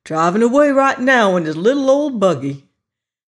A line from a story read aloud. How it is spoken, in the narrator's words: he exclaimed